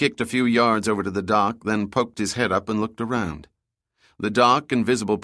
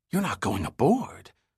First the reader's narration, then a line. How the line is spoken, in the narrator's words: Summer whispered as if her brother were insane